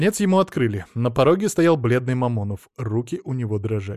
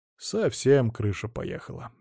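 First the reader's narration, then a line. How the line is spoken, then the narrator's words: Sighing. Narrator (Russian): еще раз вздохнул Алексей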